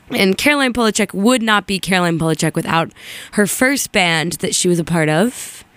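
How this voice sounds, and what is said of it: Sick, very squeaky voice. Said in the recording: “apologize for my voice. I've been a little under the weather, a little sick, and I sound like very squeaky”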